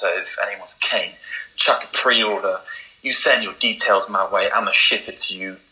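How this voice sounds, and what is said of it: Australian accent. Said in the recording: “I love that authentic Australian accent too.”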